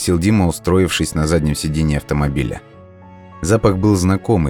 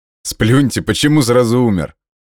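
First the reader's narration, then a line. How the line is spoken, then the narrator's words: Chuckling. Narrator (Russian): хохотнул лось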